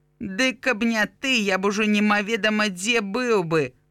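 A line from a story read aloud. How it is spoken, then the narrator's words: Displeased grumble. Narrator (Belarusian): буркнуў Граня, незадаволены тым, што Карына паводзіць сябе так, быццам яна тут галоўная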